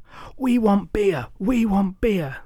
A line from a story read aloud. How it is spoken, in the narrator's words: they screamed like an unruly mob of football hooligans